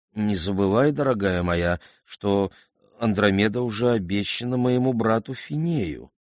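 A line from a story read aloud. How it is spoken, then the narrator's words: Timid king speaking. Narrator (Russian): Царь Кефей робко проговорил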